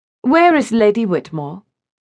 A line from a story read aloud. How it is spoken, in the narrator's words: she inquired in a cool, distant voice